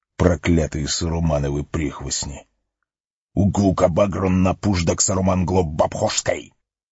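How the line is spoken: Cursing fading to helpless grumbling. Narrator (Russian): Ругань гоблина сменилась бессильным ворчанием

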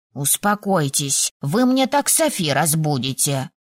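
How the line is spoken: Growled. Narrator (Russian): рыкнул Коша

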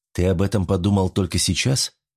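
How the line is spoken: Calm question. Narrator (Russian): спокойно спросил Жан

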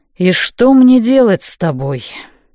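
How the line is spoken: Tired question. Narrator (Russian): устало спросил Нокс

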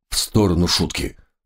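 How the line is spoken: Gruff mutter. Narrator (Russian): буркнул сержант

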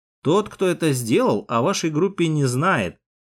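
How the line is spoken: Calm. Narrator (Russian): спокойно проговорил

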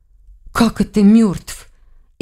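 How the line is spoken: Frightened question. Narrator (Russian): испуганно спросила Лиля

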